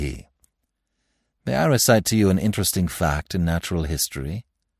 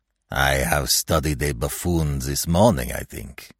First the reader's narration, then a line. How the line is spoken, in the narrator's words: punning sneer, replied